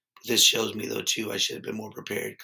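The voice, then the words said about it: Hoarse, strained voice. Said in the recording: “my voice is shot ... Just over here with laryngitis ... I think it sounds better than what you're listening to now”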